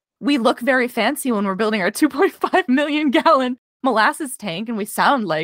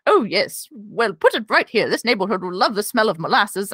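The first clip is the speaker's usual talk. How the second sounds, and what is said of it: Old-fashioned early-1900s posh accent. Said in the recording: “That was an amazing accent that you just gave the early 1900s.”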